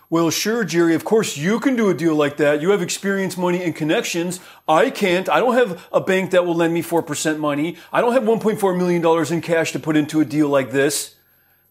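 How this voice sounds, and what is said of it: Whiny baby voice. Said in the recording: “That's my stop being a whiny-ass baby voice.”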